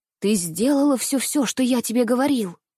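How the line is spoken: Anxious whisper. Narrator (Russian): Тем же тревожным шепотом осведомился он

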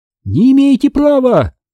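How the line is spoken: Shrieking. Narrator (Russian): завизжала мадам Приходько

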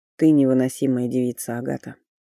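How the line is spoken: Muffled, hollow voice. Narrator (Russian): наконец глухо проговорил Фарлей

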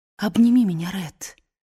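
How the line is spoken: Whisper. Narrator (Russian): прошептала

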